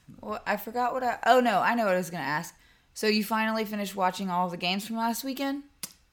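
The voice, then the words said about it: Unwell-sounding voice. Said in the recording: “apologize for my voice. I don't feel very well.”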